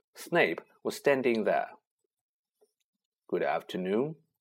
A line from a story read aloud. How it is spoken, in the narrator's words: he said smoothly